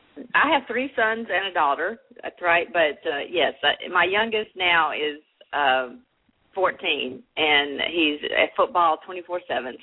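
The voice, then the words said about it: Slight Southern US accent. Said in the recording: “we can tell by your accent you must be from somewhere, maybe in the South. I'm going to guess Texas. ... the little bit of Southernness too that you hear there”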